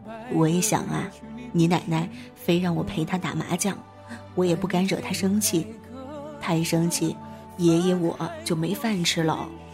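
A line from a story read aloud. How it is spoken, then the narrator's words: Laughing grandfather. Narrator (Chinese): 爷爷笑着说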